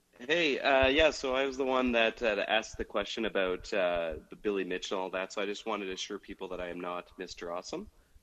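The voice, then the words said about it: Canadian accent. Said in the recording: “did I pick up a Canadian accent there? ... Yes, I am from Canada, actually.”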